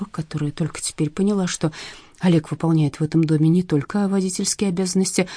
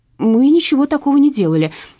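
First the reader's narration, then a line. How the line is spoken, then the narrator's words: Shouting. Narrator (Russian): кричала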